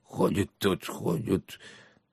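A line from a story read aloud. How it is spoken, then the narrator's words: Muttering. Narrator (Russian): бормоча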